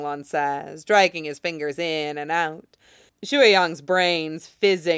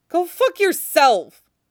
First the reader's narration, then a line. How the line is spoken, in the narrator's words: Shuiyang snaps